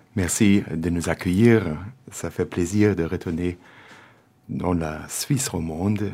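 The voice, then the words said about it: German accent speaking French. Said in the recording (Dutch): “mon accent teutonique ... je suis d'origine allemande”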